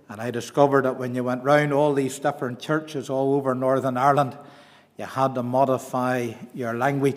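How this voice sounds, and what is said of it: Mellowed East Belfast accent. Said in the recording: “this isn't a Fermanagh accent. It has greatly mellowed over the years, but I'm East Belfast born and bred”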